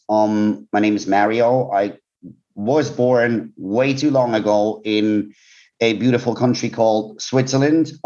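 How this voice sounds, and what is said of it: Non-British foreign accent. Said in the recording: “as people could probably tell from my accent, I'm not exactly, you know, UK born and raised”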